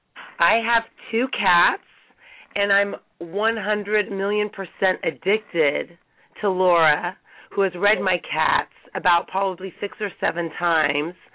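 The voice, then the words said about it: Raspy, hoarse voice. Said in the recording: “I lost my voice over New Year's. So hence the raspiness.”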